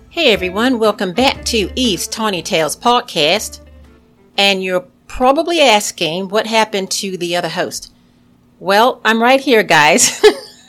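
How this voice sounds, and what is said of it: Poor put-on Australian accent. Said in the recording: “trying to talk to you in an Australian accent, and I know I was just horrible”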